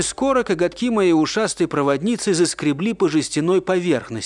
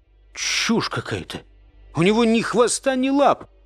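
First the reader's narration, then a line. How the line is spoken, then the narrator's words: Mumbling. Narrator (Russian): пробормотал я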